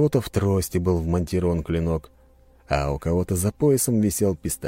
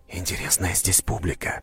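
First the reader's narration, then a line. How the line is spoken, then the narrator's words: Whispered in ear. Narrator (Russian): прошептал я на ухо Анастасии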